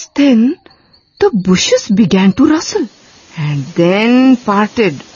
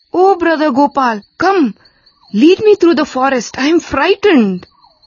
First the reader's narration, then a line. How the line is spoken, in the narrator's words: called out